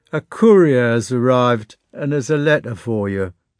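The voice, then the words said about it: Sleepy voice. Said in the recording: “in a sleepy voice.”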